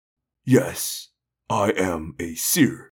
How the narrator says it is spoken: Doc said calmly

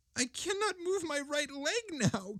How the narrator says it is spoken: cried the ghost in despair

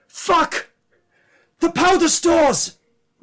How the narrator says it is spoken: one of them screams

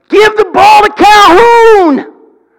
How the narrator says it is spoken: a guy up in the stands that kept yelling

